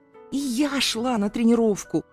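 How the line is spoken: Hissing. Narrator (Russian): зашипела я

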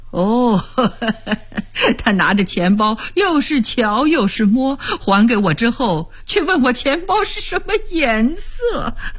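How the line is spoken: Amused storytelling. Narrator (Chinese): 夏威尼立刻讲起妻子刚刚闹出的笑话

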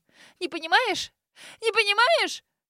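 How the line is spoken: Shrill wild female scream. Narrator (Russian): Взвизгнула Грейс, как ужаленная, диким голосом закричав

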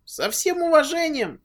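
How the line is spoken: Weak squeak. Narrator (Russian): Наконец нашел в себе силы пискнуть Кирюха

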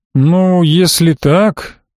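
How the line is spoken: Drawled. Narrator (Russian): протянул Ирак

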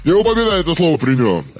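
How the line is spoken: Major barking. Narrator (Russian): рявкнул майор

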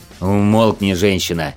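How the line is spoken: Growled. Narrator (Russian): рыкнул на нее Конрад

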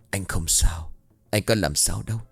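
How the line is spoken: Soft voice. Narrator (Vietnamese): Trành lại tiếp tục nhỏ giọng

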